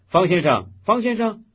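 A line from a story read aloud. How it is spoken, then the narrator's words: Called from behind. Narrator (Chinese): 背后有人叫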